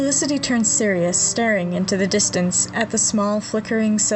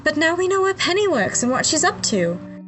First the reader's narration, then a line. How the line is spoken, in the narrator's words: Felicity smiles brightly and says